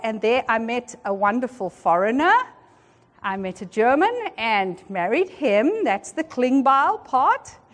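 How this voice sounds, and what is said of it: South African accent. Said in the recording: “the accent. I'm South African by birth, and that's where I grew up”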